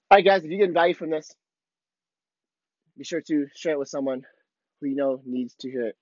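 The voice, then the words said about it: Hoarse, muffled, worn-out voice. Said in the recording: “I swear I completely lost my voice. ... I feel like I'm super muffled right now.”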